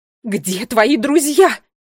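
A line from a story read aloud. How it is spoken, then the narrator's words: Angry shout. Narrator (Russian): сердито закричала королева Кникс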